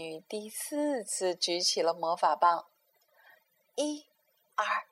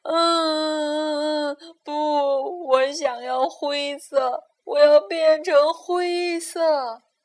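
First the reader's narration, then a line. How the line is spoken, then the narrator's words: Wailing sobs. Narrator (Chinese): 可哈巴尔嚎啕大哭起来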